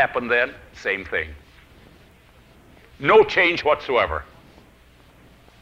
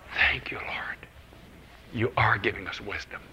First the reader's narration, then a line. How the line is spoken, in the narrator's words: quietly I said